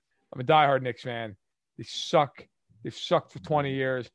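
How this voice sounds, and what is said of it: New York accent. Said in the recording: “I grew up in New York, which I'm sure you could tell from my voice.”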